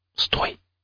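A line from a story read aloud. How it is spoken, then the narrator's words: Barely audible whisper. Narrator (Russian): едва слышно прошептал я напарнику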